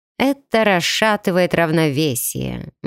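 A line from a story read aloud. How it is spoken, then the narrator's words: Gloomy goddess replying. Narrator (Russian): мрачно отозвалась богиня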